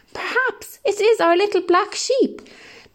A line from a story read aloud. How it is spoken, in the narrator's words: cried the shepherd